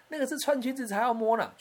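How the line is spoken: Laughing. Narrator (Chinese): 我妈妈就笑着跟我说

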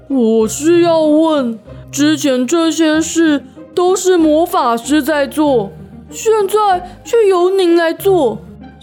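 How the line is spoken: Slow, deliberate. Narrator (Chinese): 施救慢吞吞的开口

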